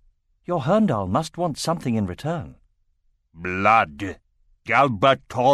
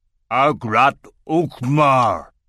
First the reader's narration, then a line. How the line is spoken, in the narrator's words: growled the Kull